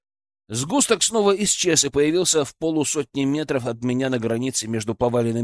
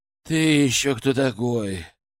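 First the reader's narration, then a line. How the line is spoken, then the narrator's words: Strained hoarse wheeze. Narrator (Russian): через силу прохрипел я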